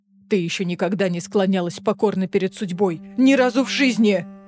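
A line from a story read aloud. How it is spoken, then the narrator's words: Roaring. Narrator (Russian): взревел Рован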